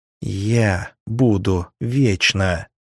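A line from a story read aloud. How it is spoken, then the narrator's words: Angry hiss. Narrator (Russian): зло прошипела нимфея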